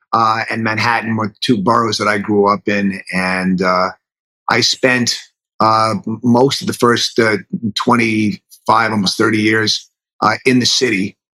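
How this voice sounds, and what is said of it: Subtle New York accent. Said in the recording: “my very subtle New York accent”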